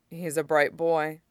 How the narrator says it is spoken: he says

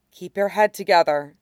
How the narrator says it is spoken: the refugee woman murmured

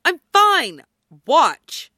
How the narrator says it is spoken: Styles snaps

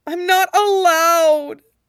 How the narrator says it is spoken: she wails

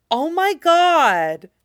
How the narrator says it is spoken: exclaims Waif Tracy

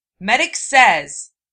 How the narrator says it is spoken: Naruto snapped

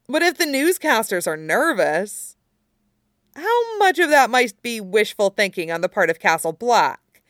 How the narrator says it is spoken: She asks hesitantly

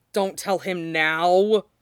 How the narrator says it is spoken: Hood groans

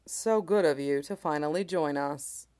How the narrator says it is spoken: Shen Qingqiu says to Shangqing Hua, His voice is dry, as usual, but it might be missing its worst sharp edges

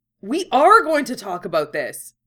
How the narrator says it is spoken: Yusuke exclaimed

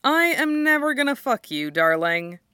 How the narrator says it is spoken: Danny replies cheerfully

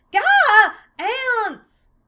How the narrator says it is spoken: Martina suddenly jumped up screaming

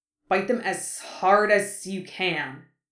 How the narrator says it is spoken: Harry hissed

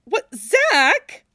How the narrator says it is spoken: Cloud sputtered

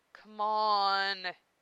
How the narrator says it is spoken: you say, whining

